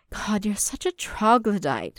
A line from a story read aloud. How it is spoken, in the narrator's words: Satine sighed